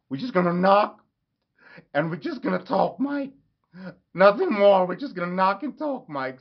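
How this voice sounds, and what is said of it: Imitates another person's voice, accent. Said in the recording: “Sorry if the accent's not perfect, but I'm just trying to get like a little bit into it.”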